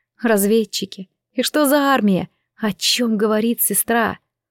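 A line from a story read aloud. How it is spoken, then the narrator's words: Quiet voice. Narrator (Russian): Сестра Таисия добавила тихим голосом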